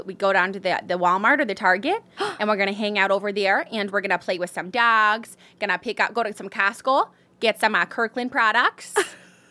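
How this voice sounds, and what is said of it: Put-on Midwestern American accent. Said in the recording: “The only one I'm like good at is like Midwestern.”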